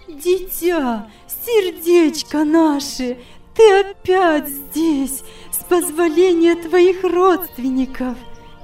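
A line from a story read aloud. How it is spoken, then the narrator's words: Exclaiming. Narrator (Russian): воскликнула она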